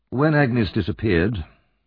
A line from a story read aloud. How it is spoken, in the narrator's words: replied Monks